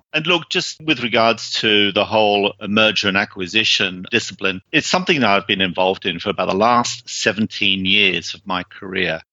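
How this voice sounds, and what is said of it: British accent. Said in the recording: “I think you probably sort of gained from my accent that I originally came from the UK”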